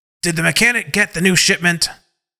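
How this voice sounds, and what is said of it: Stern militant commanding voice. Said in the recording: “in a militant voice”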